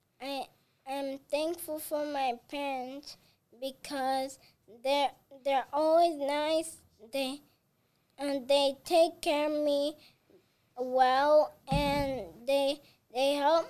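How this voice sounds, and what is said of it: Child with slight foreign accent. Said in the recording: “you have a little accent”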